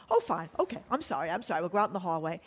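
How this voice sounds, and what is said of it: Put-on English accent. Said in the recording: “with the English accent”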